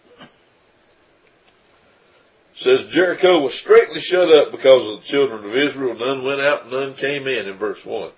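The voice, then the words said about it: Congested, stuffy-nosed voice. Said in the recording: “my voice is back, but my sinuses are still not cooperating too good”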